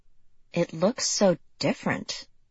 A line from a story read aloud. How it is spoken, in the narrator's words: Lexi murmured